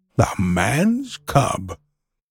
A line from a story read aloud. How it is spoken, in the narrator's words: Old Baloo, he can come and go where he pleases because he only eats nuts and roots and honey, rose upon his hindquarters and grunted